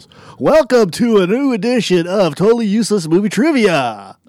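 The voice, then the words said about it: Announcer voice. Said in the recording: “should do this in announcer voice. ... I kind of like that voice better.”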